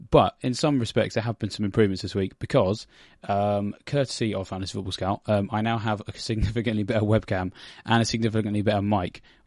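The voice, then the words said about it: Slightly hoarse voice. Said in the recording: “my voice is a little bit hoarse. So if at any point I sound like I'm dying”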